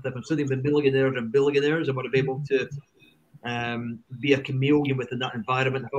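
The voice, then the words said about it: Strong Scottish accent. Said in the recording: “having a strong Scottish accent”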